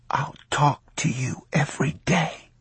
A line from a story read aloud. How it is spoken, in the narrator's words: he whispered